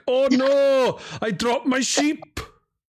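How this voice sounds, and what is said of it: Attempted strong Welsh accent. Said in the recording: “I don't even think that was a Welsh accent because I was trying to do a, a stronger Welsh accent and sounded fucking something else.”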